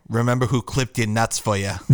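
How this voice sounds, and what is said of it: Boston accent, Hannibal Lecter-like. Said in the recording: “your really accent do. is like borderline Hannibal Lecter ... Hannibal Lecter in Boston”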